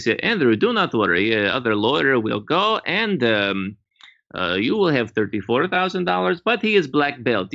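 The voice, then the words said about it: Put-on Russian accent. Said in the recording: “the Russian accent was there”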